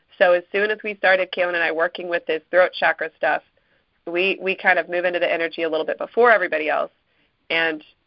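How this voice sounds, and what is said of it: Hoarse, fading voice. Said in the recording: “losing my voice ... I lose my voice”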